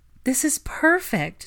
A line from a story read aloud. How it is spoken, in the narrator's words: she breathed happily